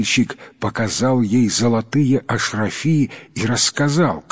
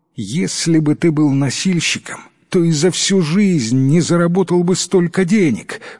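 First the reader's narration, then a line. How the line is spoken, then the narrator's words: Wife exclaiming. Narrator (Russian): воскликнула жена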